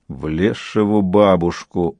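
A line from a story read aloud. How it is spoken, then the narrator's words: Grumbled. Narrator (Russian): проворчал Бонни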